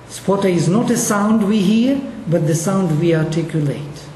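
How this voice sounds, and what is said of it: Russian-accented English. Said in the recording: “you notice the difference that I am not an English speaker. You notice that I have an accent. This accent comes from my Russian background.”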